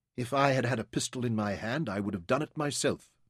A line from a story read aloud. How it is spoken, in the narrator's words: Verity said calmly